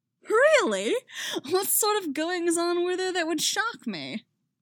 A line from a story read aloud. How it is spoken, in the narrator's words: Harry laughs